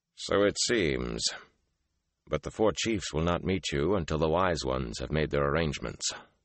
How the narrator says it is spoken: Lan added dryly

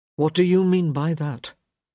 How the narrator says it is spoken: Gareth asked, his tone carefully even

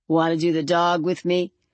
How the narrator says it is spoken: the stone boy inquired of her in a grating, uninflected voice

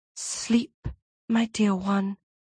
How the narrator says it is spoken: whispered

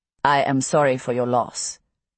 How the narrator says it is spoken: he says stiffly

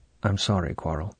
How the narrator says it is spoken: He said softly

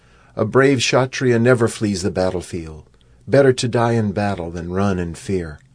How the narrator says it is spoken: Arjuna called out

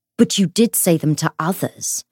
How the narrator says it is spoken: Matthew said icily

